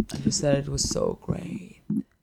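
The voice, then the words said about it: Imitates another person's voice, snore. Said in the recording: “That's a good your mom impression... Throwing a little snore at the end.”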